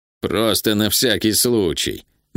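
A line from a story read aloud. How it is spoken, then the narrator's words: Grim. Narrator (Russian): мрачно сказал он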